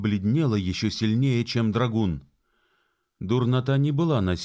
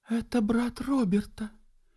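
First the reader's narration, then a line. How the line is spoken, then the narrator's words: Barely audible whisper. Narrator (Russian): Молодая особа прошептала чуть слышно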